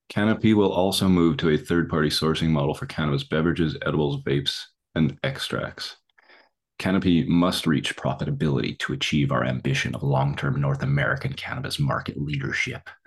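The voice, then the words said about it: Put-on accent while reading. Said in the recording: “That's how they sound as well. That was perfect accent.”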